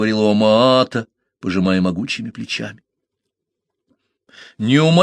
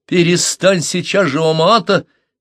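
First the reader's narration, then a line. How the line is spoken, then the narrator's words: Shouting. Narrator (Russian): крикнул Парсел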